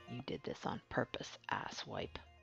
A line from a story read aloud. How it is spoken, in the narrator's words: muttered